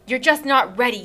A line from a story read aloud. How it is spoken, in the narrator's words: he spat the words at me